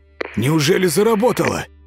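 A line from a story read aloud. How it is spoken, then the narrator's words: Exclaiming. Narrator (Russian): воскликнул Вырин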